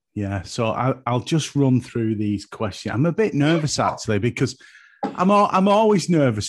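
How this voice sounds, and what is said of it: Broad Lancashire English accent. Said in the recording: “you've got that very attractive accent... Is it Yorkshire or is it Lancashire?... I'm classed as Lancastrian... it's quite broad”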